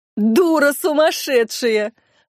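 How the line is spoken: Laughing. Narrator (Russian): рассмеялась Колобова

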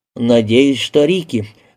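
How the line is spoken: Gloomy. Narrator (Russian): мрачно произнес Алин

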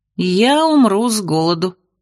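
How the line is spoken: Sad statement. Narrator (Russian): печально констатировала я

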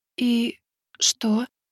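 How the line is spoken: Breathless whisper, female scout. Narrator (Russian): затаив дыхание, прошептала разведчица

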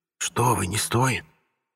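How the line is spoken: Near-whisper hesitant refusal. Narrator (Russian): Чуть ли не шепотом попробовал отказаться интеллигент

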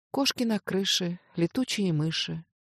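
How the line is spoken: Sleepy, vague murmuring. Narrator (Russian): Аня продолжала повторять сонно и смутно

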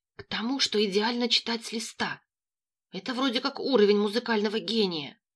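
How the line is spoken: Rapid whisper. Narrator (Russian): частым шепотом ответил Локи

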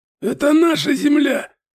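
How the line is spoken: Prisoner's hoarse rasp. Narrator (Russian): прохрипел пленник

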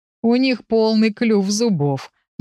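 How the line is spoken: Gloomy explanation. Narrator (Russian): мрачно объяснил Урс

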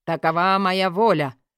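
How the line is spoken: Loud exclamation. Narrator (Russian): воскликнул громко

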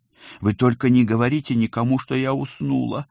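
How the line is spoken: Pleading. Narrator (Russian): взмолилась

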